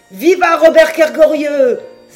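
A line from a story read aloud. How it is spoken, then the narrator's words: Crew shouting together. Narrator (French): s'écria l'équipage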